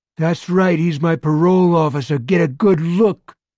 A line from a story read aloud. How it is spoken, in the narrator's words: Morris feels an urge to shout